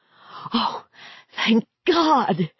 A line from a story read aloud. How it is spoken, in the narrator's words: cried